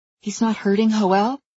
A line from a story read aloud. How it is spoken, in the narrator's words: I asked anxiously